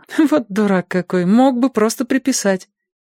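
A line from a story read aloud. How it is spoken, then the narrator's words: Laughing. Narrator (Russian): она засмеялась и сказала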